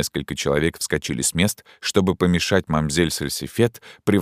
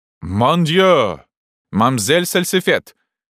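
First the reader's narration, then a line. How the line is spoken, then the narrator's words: Many voices shouting together. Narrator (Russian): крикнула разом дюжина голосов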